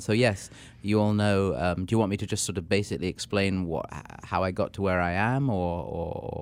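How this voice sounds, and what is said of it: English accent. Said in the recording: “Our listeners can hear from your accent. ... Yes, exactly. I'm an Englishman”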